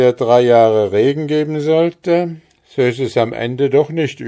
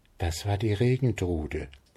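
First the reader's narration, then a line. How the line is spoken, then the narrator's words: Couple whispering. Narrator (German): flüsterten Braut und Bräutigam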